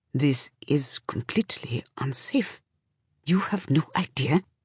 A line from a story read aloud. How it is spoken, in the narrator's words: Cutter stands over her and says in a tight voice